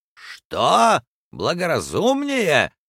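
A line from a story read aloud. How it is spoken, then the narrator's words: Stung, shouting. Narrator (Russian): закричал полковник Проктор, которого это слово тоже укололо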